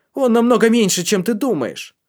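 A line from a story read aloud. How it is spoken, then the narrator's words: Boy shouting. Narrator (Russian): выкрикнул мальчишка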